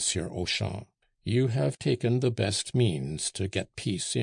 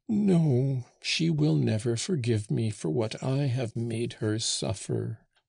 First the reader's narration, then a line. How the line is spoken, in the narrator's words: whimpered the old man